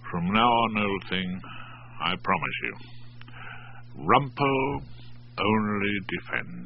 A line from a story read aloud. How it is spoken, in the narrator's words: muttered to Hilda's sleeping back